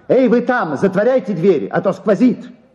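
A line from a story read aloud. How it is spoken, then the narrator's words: Angry shout. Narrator (Russian): желая показать им, что ему вовсе не стыдно, кричал сердито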